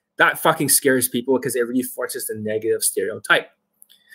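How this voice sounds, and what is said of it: Usual voice. Nothing is said of it.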